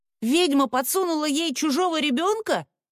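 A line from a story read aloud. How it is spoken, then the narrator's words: Young boy shouting from crowd. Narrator (Russian): крикнул парнишка из толпы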